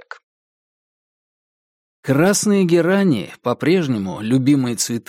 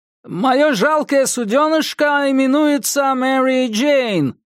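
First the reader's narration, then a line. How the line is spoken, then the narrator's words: Shout, fake American accent. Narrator (Russian): крикнул я, старательно подделываясь под американский акцент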